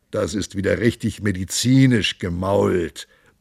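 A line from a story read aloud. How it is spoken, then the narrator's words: Monk grumbling. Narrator (German): brummte der Mönch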